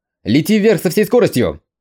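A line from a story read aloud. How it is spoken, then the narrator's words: Urgent alarmed shout. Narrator (Russian): Юй неожиданно почувствовал опасность и сразу же ... крикнул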